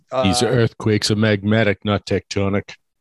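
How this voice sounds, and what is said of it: Good put-on accent. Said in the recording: “That was a good accent.”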